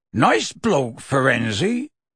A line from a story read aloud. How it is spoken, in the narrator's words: he said gruffly